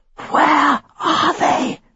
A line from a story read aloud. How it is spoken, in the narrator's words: whispered